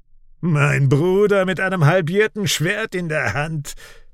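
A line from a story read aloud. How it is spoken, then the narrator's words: Mad laughter. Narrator (German): Sein Lachen klingt wahnsinnig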